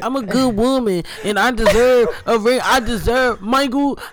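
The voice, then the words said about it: Put-on Black woman's accent. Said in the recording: “You got to do it in her accent ... In her black accent”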